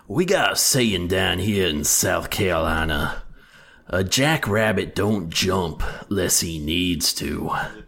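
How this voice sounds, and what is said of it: Put-on old Southern man accent. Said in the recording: “your best southern accent saying something southernish ... That's pretty good ... That definitely feels like an old Southern man sort of thing.”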